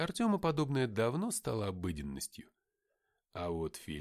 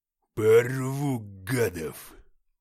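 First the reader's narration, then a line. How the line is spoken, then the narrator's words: Hiss. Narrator (Russian): прошипел он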